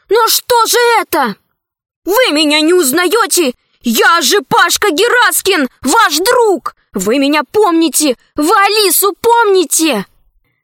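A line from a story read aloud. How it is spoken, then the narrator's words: Frantic shouting. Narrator (Russian): кричал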